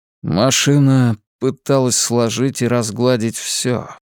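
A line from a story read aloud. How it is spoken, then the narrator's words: Muffled voice. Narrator (Russian): глухо произнес Хантон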